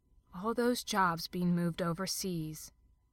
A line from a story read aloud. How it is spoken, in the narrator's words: Pippa murmured darkly